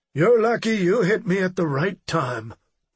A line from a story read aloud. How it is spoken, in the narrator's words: Freeman replied dryly